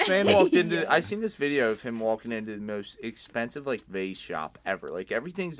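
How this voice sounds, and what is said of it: Usual voice. Nothing is said of it.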